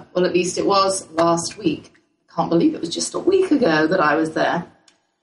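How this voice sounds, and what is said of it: Hoarse voice cutting in and out. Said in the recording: “as you can hear, my voice is kind of in and out”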